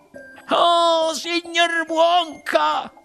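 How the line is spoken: Sobbed, lady. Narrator (Italian): singhiozzò la signora TV

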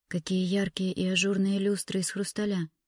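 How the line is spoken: Whisper. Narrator (Russian): прошептала она

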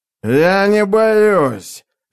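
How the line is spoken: Angry growl. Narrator (Russian): злобно зарычал он

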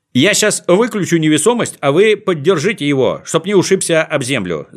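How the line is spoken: Shouting from afar. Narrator (Russian): закричал Знайка издали

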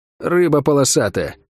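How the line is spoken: Muttered. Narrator (Russian): буркнула Лавиане

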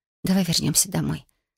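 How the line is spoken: Quiet suggestion. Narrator (Russian): тихо предложила

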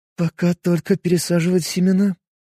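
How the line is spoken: Sad reply. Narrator (Russian): грустным голосом ответила ученая

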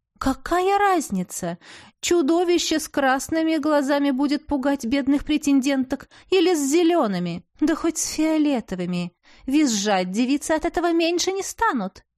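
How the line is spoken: Gleeful giggling. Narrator (Russian): Мелисента хихикнула, предвкушая грядущее веселье

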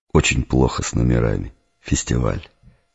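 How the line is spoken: Sighing. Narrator (Russian): господин вздохнул

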